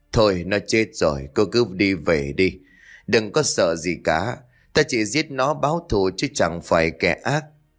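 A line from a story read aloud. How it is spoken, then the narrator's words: Sighing. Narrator (Vietnamese): Sơ thở dài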